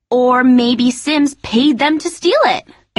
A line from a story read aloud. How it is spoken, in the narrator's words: exclaimed Michelle